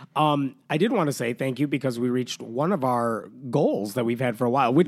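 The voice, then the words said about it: Congested voice from a cold. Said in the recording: “As you can tell, I have a cold”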